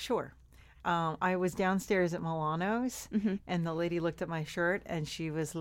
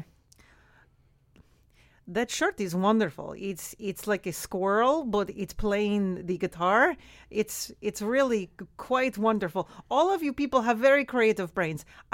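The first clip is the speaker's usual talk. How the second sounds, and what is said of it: Put-on Polish accent. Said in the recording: “You can do a Polish accent? ... I did a Polish accent just today.”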